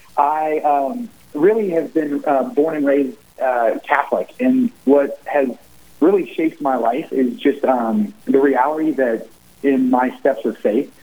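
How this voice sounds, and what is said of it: Southern Ohio accent, sounds Kentuckian. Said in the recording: “I'm originally from the southern part of Ohio, which is where my accent comes from. So it sounds more Kentuckian than Ohioan.”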